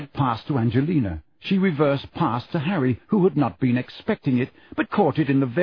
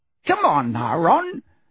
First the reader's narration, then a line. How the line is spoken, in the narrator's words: said Angelina crossly